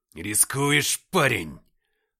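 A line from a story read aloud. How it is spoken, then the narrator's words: Growl. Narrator (Russian): прорычал я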